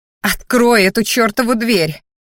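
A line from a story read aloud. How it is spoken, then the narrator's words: Growl. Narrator (Russian): рыкнула она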